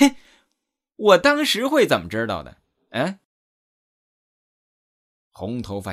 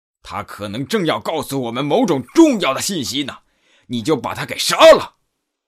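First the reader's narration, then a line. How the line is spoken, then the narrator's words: Big man roaring. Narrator (Chinese): 大汉咆哮道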